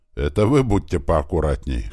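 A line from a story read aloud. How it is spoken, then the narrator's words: Snorting, wry. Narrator (Russian): хмыкнул Большой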